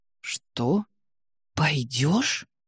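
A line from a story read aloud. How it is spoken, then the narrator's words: Hissing, disbelieving whisper. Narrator (Russian): свистящим шепотом переспросил Святозар, не смея поверить услышанному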